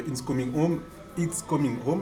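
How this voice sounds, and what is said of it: Put-on English accent. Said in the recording (French): “T'avais un meilleur accent anglais quand je suis venu”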